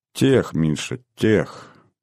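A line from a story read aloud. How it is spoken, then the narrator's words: Soft correction, young woman. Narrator (Russian): мягко поправила девушка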